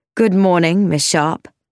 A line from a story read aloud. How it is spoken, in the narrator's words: said icily